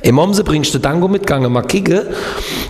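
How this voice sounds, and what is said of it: Put-on Kehl regional dialect. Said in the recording (German): “mach mal in deinem Dialekt ... warte mal, wie geht nochmal Kehl am Rhein, wo ich gelebt habe? ... oh, das ist ja lustig, was du da machst”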